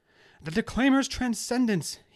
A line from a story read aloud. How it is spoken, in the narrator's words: he cried out like a madman